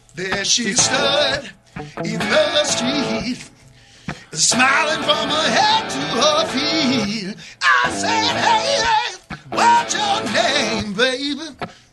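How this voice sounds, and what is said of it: Imitates another person's singing voice. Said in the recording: “my Paul Rodgers imitation.”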